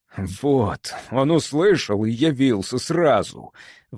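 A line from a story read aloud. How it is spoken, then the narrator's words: Breathed out up close. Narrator (Russian): выдохнул Эверард прямо в лицо медянину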